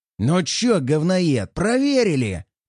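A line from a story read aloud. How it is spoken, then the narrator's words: Growl. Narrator (Russian): прорычал он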